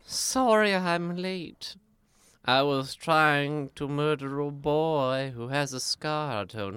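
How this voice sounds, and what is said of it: Voldemort impression. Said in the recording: “that amazing Voldemort impression”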